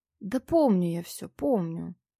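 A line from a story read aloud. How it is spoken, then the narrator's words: Tired, matter-of-fact drawl. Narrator (Russian): Как-то устало и буднично протянул мужчина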